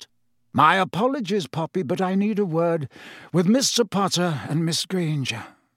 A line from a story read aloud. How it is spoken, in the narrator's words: said Dumbledore calmly